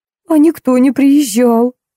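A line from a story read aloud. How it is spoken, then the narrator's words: Sobbing. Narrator (Russian): всхлипнула Лара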